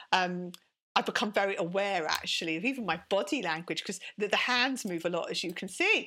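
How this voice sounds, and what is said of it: British accent. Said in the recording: “my British accent, I embrace it, I love it, and I protect it when someone says it's from somewhere else”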